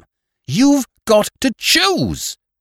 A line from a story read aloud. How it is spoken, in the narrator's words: she cried, as if it were some terrible menace, and as if it hurt her that she could not exact more